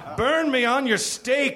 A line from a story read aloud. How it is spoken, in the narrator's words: she cried out